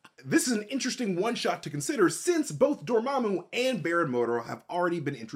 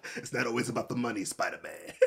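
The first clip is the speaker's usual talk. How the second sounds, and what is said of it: Imitates Kingpin's accented movie voice. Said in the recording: “My favorite Kingpin is the one from Into the Spider-Verse because just the accent is wonderful.”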